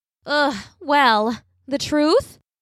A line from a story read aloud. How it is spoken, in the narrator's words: groaned theatrically and said